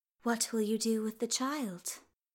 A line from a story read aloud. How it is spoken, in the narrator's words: The queen spoke calmly